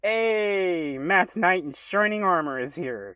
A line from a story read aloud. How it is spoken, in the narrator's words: Joba shouted excitedly